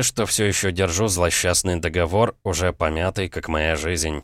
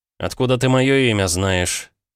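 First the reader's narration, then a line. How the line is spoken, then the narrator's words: Tired, restrained. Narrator (Russian): Теперь я говорил устало, пытаясь взять себя в руки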